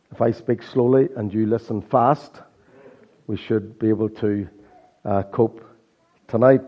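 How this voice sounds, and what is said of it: Hoarse croaky voice, Irish accent. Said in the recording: “Excuse my croaky voice ... my Irish accent ... battling a sore throat and hoarseness all week”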